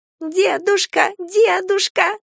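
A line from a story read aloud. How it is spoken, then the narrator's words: Squeaky child-voice imitation. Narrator (Russian): подражая детскому голосу, пропищал Галя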